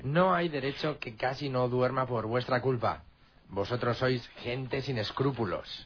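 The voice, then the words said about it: Menacing villain voice. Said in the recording (Spanish): “pone esta voz de malo ... desde que está mal de la voz”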